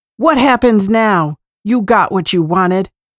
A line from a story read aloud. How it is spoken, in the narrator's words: he called out angrily